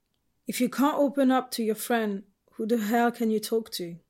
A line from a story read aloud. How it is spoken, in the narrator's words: Ed sighed